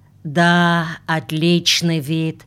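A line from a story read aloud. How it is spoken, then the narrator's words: Sighing. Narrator (Russian): Сидоров вздохнул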